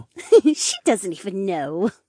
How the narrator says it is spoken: Aira giggled

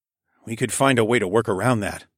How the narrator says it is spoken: I muttered

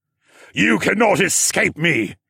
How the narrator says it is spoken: Siskorn shouted

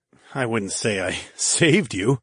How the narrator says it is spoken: I chuckled

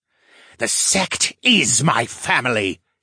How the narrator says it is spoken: he hissed

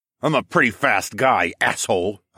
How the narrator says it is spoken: I snarled

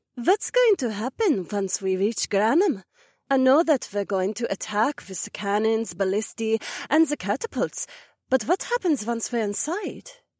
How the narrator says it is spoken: Cecilia breathed

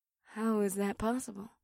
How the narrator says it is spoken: Batari muttered

